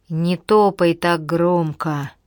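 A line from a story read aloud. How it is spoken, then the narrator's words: Groaning. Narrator (Russian): простонал он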